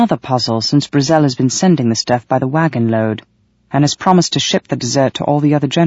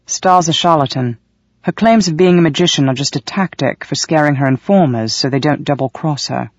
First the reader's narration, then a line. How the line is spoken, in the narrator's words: Valak sighed